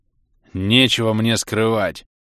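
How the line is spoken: Unrestrained bark. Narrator (Russian): Не сдержавшись, рявкнул Адрус

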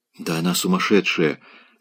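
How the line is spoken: Horrified whisper. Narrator (Russian): шептал он в ужасе

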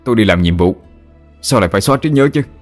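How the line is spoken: Loud, furious. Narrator (Vietnamese): người lính tức giận đến mặt đỏ tía tai, lớn tiếng

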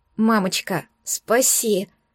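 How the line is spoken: Pleading. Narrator (Russian): взмолилась я

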